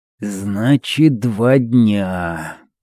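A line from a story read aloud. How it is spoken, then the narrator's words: Muttered. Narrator (Russian): пробормотал Эль Торро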